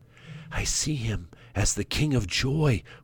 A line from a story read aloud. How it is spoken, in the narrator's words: whispered Sorrow